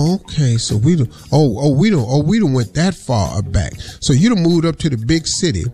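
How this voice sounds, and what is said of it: Usual voice. Nothing is said of it.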